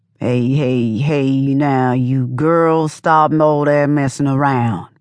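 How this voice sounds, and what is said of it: Slow mumbling old man voice. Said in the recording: “mumbled all slow in his old man voice.”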